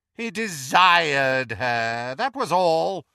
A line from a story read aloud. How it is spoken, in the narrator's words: sneered Voldemort